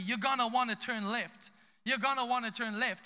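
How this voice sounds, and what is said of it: Put-on American boy accent. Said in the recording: “some American boy in Zimbabwe with bad grammar, American accent”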